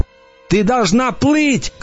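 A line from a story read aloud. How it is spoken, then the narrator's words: Shout. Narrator (Russian): крикнул я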